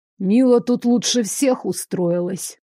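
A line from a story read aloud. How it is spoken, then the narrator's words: Pointedly displeased grumble. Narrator (Russian): показательно недовольно проворчал Клякс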